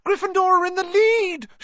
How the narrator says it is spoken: shrieked Hermione

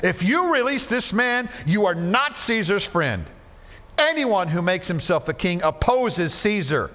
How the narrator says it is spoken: But the Jews shouted

